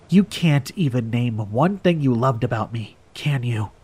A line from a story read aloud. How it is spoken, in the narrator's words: She whispered